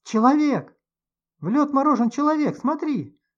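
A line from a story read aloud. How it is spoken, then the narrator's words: Screaming. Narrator (Russian): вопила Любочка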